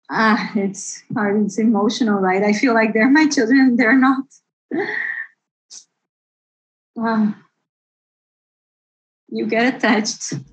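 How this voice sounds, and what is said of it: Emotional, moved speaking voice. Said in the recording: “you could see how emotional she was about all this ... you can still hear it in her voice.”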